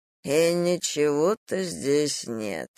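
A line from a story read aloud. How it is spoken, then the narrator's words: Disappointed drawl. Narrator (Russian): протянул разочарованно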